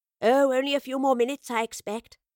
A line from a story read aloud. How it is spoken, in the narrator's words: she replied